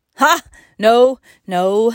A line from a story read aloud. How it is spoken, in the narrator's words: laughed Curtis